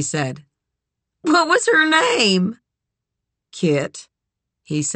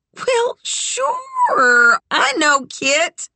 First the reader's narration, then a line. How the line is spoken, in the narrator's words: she said, a little loudly, excited to have made a connection